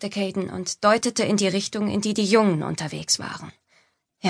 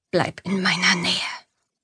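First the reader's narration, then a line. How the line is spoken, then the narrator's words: Whispered. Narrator (German): flüsterte er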